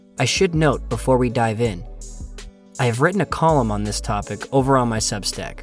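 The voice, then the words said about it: Hoarse, strained voice. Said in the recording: “hoarse voice throughout this episode ... lost my voice from screaming my head off on rides”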